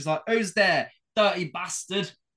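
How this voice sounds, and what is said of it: Put-on Cockney accent. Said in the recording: “we tend to give everyone a Cockney accent ... you have just given them a Cockney accent”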